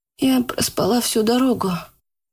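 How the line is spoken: Sleep-hoarse voice. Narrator (Russian): хриплым со сна голосом сказала Яна

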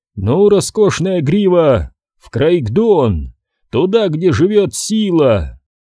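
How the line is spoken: Laughing shout to horse. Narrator (Russian): Илбрек засмеялся, и он крикнул коню

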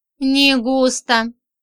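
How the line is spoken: Sighing. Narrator (Russian): вздохнула Зойка

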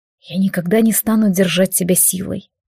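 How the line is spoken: Quiet reply. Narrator (Russian): тихо ответил Алистар

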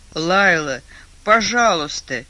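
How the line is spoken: Groaning. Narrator (Russian): простонал Адам

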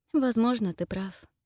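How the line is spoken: Sad, smiling. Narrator (Russian): грустно улыбнулась

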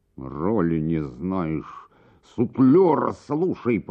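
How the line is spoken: Hissing. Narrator (Russian): прошипел трагик

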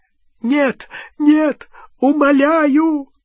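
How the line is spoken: Choking sobs. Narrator (Russian): захлебывал с рыданиями Ксенофилиус

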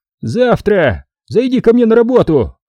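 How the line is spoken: Shouting after someone. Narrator (Russian): крикнул он вдогонку

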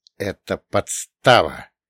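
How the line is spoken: Hissed. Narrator (Russian): прошипел я

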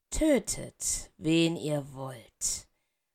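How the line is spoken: Very quiet, menacing. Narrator (German): sagte der dunkle Lord sehr leise

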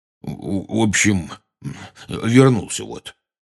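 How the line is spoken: Weak mumble. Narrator (Russian): слабо промямлил

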